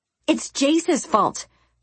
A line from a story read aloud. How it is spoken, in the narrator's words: Jelaine snapped